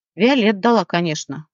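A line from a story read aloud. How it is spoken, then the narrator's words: Grumble. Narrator (Russian): проворчал Рослик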